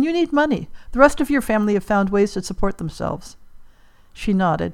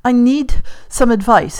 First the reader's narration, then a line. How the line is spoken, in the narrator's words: Harry panted